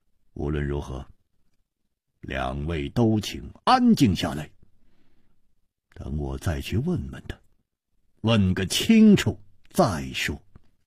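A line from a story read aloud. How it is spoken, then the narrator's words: After silence, deep voice. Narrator (Chinese): 默然半晌，沉声说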